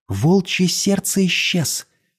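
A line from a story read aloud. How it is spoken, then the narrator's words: Whispered. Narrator (Russian): шепнула она Ворсу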